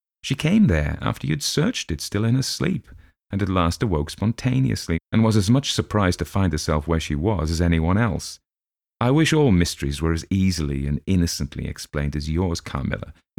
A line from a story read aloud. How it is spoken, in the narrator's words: he said, laughing